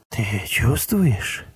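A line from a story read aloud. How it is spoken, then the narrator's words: Whispered. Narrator (Russian): прошептал он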